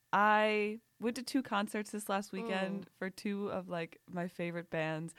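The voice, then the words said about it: Hoarse, strained voice. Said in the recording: “I'm kind of losing my voice. If anyone can tell”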